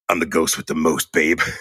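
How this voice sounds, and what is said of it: Poor impression of Beetlejuice character. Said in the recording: “That's a terrible impression, ... I'm not an impressionist”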